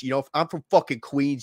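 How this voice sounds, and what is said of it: Put-on Queens, New York accent. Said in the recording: “straight out of Queens, New York, had the total Yankee, had the accent, everything. Motherfucker talked like this.”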